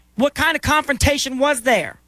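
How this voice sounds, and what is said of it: Raised, loud, upset voice. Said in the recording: “raising your voice ... Because I'm upset”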